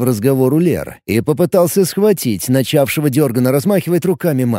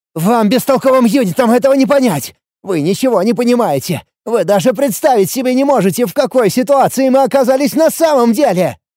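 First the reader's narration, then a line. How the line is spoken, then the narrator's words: Hysterical near-shrieking shout. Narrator (Russian): Истеря почти до визга кричал Лиур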